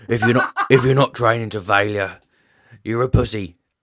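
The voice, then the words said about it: Imitates another person's voice. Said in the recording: “probably not his accent, but certainly in his tone of voice ... that's not a very good accent for him. He's got a bit of a Norfolk twang”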